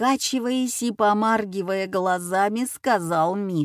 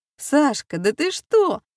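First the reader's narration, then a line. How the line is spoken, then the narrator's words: Exclaimed. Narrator (Russian): воскликнула тетя Ира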